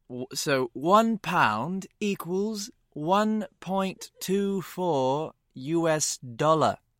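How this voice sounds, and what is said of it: Put-on English accent. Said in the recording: “make sure you do it with your English accent ... It's like Cockney is what it is.”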